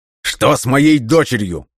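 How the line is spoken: Shout. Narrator (Russian): крикнул

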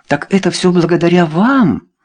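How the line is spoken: Exclaiming. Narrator (Russian): воскликнула Люсинда

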